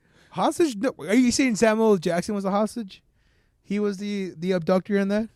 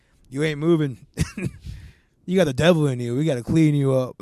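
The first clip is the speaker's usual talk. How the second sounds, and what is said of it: Imitates another person's voice. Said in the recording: “my best Samuel Jackson impression”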